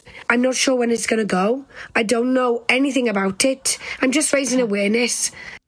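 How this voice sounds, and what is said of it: Foreign-sounding accent. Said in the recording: “It's called foreign accent syndrome ... she's got a magical voice.”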